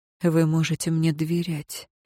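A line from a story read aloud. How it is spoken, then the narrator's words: Whisper. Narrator (Russian): шепнул он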